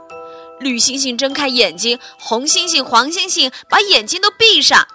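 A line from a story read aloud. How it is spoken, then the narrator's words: Loud clamor. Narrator (Chinese): 汽车们大声嚷嚷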